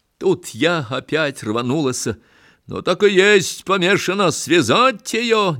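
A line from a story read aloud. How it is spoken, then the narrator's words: Shout. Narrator (Russian): начальник закричал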